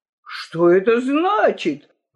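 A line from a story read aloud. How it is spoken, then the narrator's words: Angry exclamation, several voices. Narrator (Russian): воскликнули они гневно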